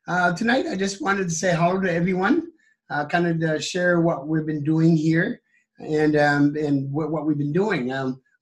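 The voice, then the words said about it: Strained, fading voice with cough. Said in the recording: “If I stop the cough ... losing my voice.”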